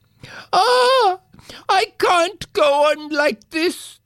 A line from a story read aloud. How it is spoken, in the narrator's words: the prince cried